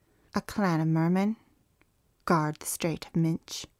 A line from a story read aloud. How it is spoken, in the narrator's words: the mermaid said